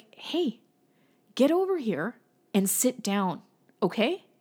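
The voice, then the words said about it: Stern, mean parental voice. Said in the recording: “that's my stern voice. That's my dad voice. That's as mean as I, well, it's as mean as I get in public anyway.”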